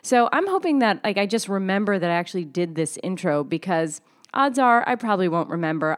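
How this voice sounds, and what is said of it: Sounds unwell, slightly off voice. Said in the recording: “I sound a little weird today because I'm sitting here with the flu. I've got like 102 degree fever”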